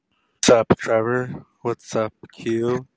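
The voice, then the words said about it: Smiling public-radio announcer voice. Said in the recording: “This is my NPR voice ... NPR people sound like they're smiling with their voice ... you have to go more nasally with it too. It's gotta be nasal.”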